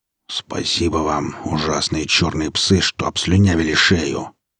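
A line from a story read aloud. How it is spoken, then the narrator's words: Grumbling. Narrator (Russian): проворчал он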